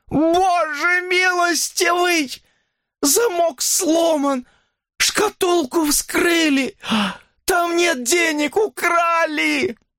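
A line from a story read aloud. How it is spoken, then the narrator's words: Frantic furious shrieking scream. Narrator (Russian): Ее крик потонул в истошном, яростном, визгливом вопле старика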